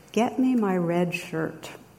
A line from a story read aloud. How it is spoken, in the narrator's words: the captain replies calmly